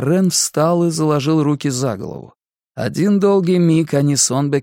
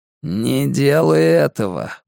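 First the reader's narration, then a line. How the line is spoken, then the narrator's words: Strained voice. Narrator (Russian): проговорил Онбекенд натянутым голосом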